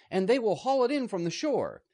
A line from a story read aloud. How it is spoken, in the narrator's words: he shouted